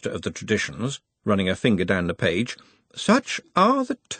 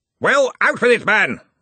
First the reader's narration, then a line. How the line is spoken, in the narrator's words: roared Ridcully